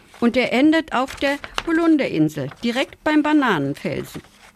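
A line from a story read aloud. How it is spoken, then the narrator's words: Small creature calling out. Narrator (German): rief der kleine Hase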